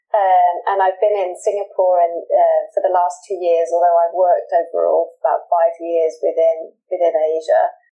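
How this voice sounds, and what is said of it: British accent. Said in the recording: “I'm originally from the UK, which I think you can tell from my accent.”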